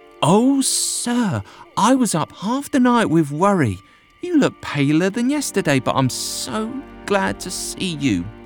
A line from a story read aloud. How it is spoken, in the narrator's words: She exclaimed